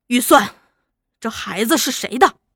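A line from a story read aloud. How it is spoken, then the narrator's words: Quiet, secretive. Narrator (Chinese): 一个叫秦志的知心姐妹，悄悄对他说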